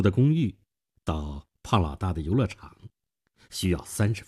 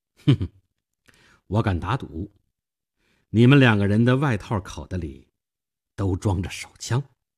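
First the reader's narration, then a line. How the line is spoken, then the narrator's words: Faint smile. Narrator (Chinese): 我淡淡的一笑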